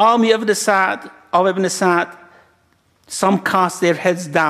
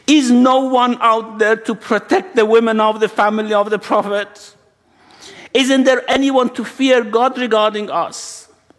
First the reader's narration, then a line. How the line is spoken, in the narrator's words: he goes and stands in front of the army and shouts